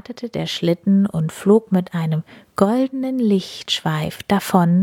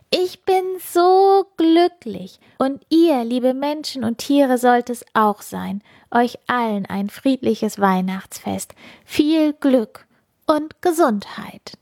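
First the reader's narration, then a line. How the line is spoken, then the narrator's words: Loud joyful call. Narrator (German): Und Funkieler rief laut in den Nachthimmel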